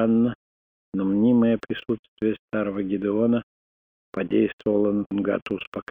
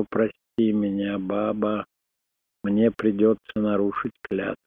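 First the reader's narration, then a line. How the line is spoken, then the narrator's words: Guilty whisper. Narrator (Russian): виновато прошептал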